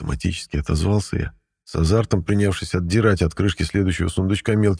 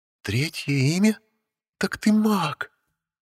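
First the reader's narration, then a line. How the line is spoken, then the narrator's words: Joyful exhale from behind. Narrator (Russian): Обрадованно выдохнули за спиной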